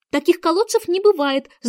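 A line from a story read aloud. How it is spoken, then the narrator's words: Annoyed exclamation. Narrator (Russian): с досадой воскликнула Алиса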